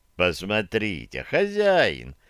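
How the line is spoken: Ingratiating suggestion. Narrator (Russian): вкрадчиво предложил мне Тонис

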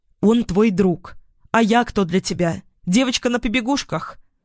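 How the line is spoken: Yelling back. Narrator (Russian): заорала в тон ему

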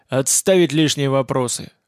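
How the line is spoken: Barked. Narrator (Russian): рявкнул группер

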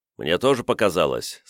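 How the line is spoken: Calm. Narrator (Russian): спокойно кивнул Сирвидас

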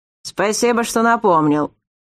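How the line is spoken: Displeased grumble. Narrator (Russian): проворчал Ламар, явно недовольный непрошенной лекцией капитана

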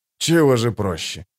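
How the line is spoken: Scoffing snort. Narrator (Russian): хмыкнул Хават

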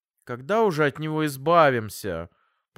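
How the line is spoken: Whiny drawl. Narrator (Russian): протянул я капризным голосом

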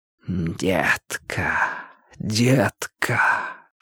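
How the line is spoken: Soft tender whisper. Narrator (Russian): шептал Линч голосом ласковым, как касание туманом щеки

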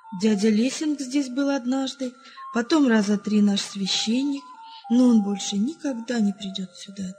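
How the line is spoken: Sad. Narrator (Russian): добавил печально

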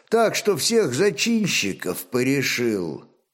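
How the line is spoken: Thoughtful speech. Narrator (Russian): задумчиво молвил Богумил

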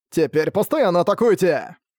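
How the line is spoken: Shouting. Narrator (Russian): кричал Арк

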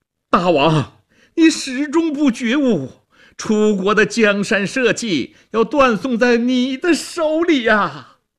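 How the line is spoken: Strained shout. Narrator (Chinese): 屈原挣扎着高喊

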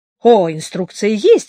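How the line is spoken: Woman's exclamation. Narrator (Russian): воскликнула женщина

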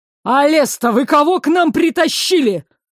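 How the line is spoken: Barking. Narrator (Russian): рявкнул тот

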